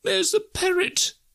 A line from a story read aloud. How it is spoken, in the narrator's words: cried Scrooge